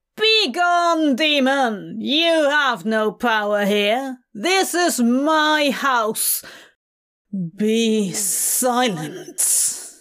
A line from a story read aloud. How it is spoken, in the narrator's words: A deep, angry voice booms like a bell underwater, filling the room